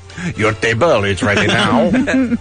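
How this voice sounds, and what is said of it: Bad put-on French accent. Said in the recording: “I had to have a French accent. And it was horrible.”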